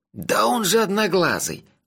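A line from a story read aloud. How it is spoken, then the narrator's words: Excited whisper. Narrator (Russian): взволнованно прошептал Моти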